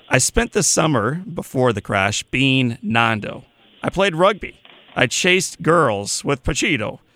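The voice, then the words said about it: American Midwestern accent. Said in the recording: “I'm going to read this in my my Midwestern accent”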